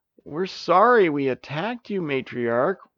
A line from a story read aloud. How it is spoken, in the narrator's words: whimpered Sara